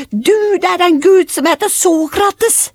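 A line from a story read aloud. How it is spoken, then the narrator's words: Children shouting. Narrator (Norwegian): Ungene ... de ropte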